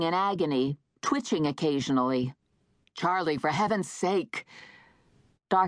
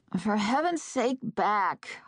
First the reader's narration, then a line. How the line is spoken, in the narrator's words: I said in a groggy voice